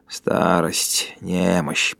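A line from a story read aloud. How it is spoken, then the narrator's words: Muttering. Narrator (Russian): пробормотал он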